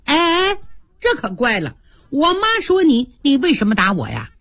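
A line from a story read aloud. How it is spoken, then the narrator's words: Laughing speech. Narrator (Chinese): 宝钗笑了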